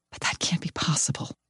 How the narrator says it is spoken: I whisper

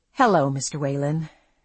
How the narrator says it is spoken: said wearily

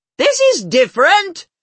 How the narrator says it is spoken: she yells

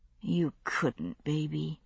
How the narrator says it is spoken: I murmured

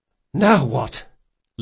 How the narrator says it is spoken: Locke panted

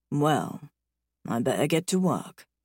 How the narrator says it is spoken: he murmurs

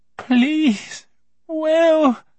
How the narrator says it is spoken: his mother's voice begged

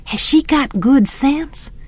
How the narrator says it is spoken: I whispered to Jem

